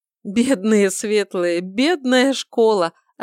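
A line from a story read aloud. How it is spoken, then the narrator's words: After laughing, emperor. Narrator (Russian): Отсмеявшись, сказал император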